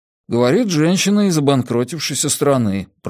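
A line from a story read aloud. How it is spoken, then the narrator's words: Muttered. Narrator (Russian): пробормотал Джеспер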